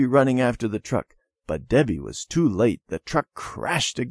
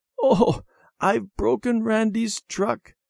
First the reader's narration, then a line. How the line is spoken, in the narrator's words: Debbie said with a sob